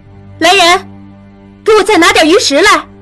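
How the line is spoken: Panicked shout. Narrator (Chinese): 他心中一慌，喊了起来

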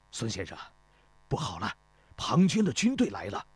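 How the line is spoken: Breathless, panting. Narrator (Chinese): 始皇大夫 气喘吁吁地 对孙膑说

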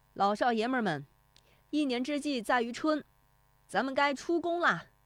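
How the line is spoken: Shouting. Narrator (Chinese): 徐德义 他的喊声

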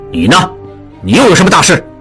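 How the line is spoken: Angry question. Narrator (Chinese): 蒋作斌用一种愤怒的声音问道

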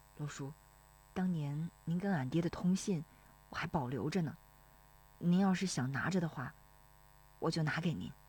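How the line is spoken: Low voice. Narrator (Chinese): 石丽华低声说

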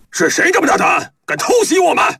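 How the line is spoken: Panicked crowd clamoring. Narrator (Chinese): 喽啰们慌慌地纷纷嚷着

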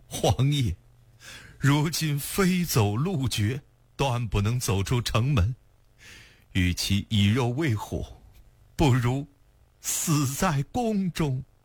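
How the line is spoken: Choked sobbing. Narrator (Chinese): 哽咽地说道

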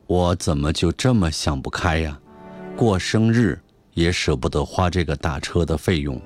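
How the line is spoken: Sorrowful sigh. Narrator (Chinese): 我哀叹了一声

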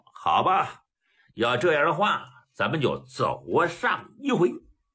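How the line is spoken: With a smile. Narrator (Chinese): 刘荣一笑

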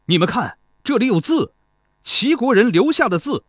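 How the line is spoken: Distant shouting. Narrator (Chinese): 路旁传来喊声

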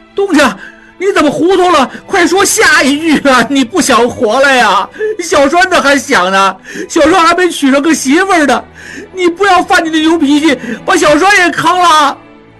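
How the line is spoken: Shouting loudly. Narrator (Chinese): 小栓大叫

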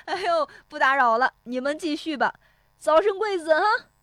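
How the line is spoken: Laughing outside window. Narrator (Chinese): 石有福在窗外哈哈笑着说

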